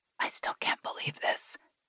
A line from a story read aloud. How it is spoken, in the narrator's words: Gina whispered against Meg's neck